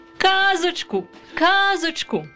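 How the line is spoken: Children shouting. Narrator (Ukrainian): закричали діти

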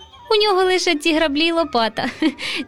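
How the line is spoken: Laughing. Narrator (Ukrainian): засміявся руденький Романко

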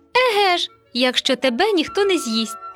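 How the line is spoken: Hearty laughter. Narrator (Ukrainian): сміялися брати, аж за боки бралися

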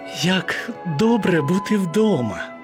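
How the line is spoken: Relieved sigh. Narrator (Ukrainian): полегшено зітхнула Анні

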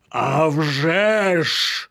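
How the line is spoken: Gruff bark. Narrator (Ukrainian): гаркнув Світоч

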